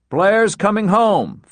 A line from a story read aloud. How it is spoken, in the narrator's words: Frohmeyer repeated loudly